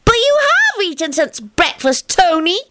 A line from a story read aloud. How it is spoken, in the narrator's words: Teddy replied triumphantly